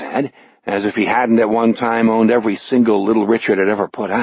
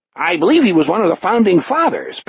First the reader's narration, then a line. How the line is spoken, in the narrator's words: Penniman laughed uproariously